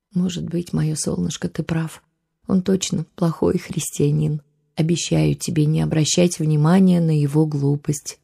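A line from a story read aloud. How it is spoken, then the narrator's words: Sad, gentle. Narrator (Russian): грустно улыбнулась мама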